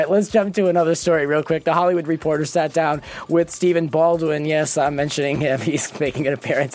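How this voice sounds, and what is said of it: Usual voice. Nothing is said of it.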